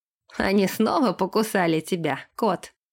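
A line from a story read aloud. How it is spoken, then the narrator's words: Laughing lord. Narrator (Russian): рассмеялся лорд долины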